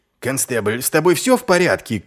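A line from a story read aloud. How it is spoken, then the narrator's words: Shouting. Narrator (Russian): крикнул Ваймс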